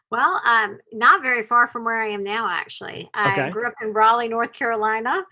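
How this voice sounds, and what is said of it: Slight Southern US accent. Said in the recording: “my Southern accent. ... It's slight, though, I will say. It doesn't feel overpowering yet. ... It's got a little lilt.”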